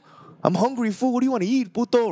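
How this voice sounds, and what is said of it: Exaggerated Cholo accent. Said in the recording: “my Cholo accent in this. Kind of crazy, like exaggerated way”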